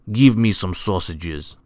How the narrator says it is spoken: snapped Mr

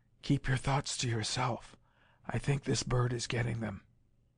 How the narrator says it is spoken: he added in a whisper

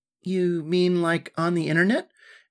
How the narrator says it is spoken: asked Alyssa

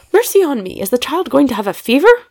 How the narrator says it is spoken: cried the old lady

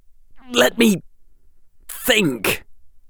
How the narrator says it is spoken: Draco said, his voice coming out in something of a croak

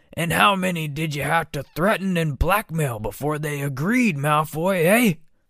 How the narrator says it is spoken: roared

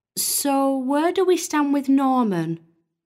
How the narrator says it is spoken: Maria asked, her voice tinged with sadness

